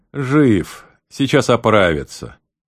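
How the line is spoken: Relieved sigh. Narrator (Russian): Гарт вздохнул с облегчением и сказал

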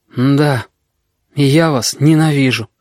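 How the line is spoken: Tired boy's voice. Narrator (Russian): мальчишка сказал устало

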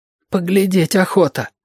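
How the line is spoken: Breathed out. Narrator (Russian): выдохнул Мишка

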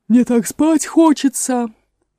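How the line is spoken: Moaning. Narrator (Russian): простонала она

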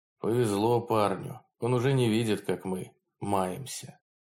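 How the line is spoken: Weary. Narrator (Russian): Другой устало добавил

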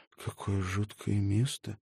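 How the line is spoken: Muttered. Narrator (Russian): Наконец она пробормотала

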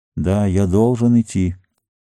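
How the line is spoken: Detached, distant. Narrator (Russian): произнес он отчужденным голосом

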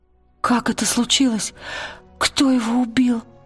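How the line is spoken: Trembling voice. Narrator (Russian): дрожащим голосом сказала Лира

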